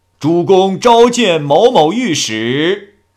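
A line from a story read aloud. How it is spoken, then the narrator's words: Loud calling out. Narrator (Chinese): 姓王的高声喊道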